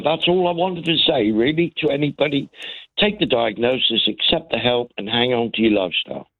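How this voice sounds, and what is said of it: Cornish accent. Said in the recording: “I actually grew up in Cornwall, and it's really lovely to hear ... accent.”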